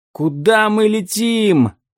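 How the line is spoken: Frightened shout. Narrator (Russian): закричал Том, ухватившись за хвост змея

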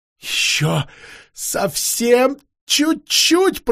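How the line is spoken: Moaning. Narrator (Russian): простонала Алисанда

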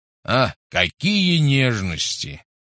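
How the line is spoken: Snorted. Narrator (Russian): фыркнул Гош

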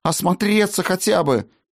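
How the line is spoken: Pleading. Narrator (Russian): взмолилась она

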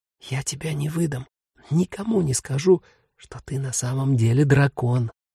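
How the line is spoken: Whisper into ear. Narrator (Russian): прошептал в мохнатое ухо

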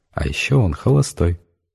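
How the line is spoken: Giggling, very quiet. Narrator (Russian): Олечка радостно захихикала и совсем уже тихим голосом добавила

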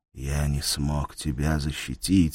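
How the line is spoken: Barely audible. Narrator (Russian): сказал он едва слышно

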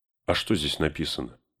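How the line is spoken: Plain question. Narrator (Russian): спросил Фродо Гэндальфа

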